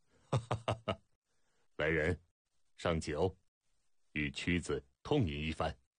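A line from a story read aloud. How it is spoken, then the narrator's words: Hearty laughter. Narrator (Chinese): 楚威王哈哈大笑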